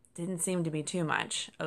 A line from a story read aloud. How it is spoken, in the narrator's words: Oakes replied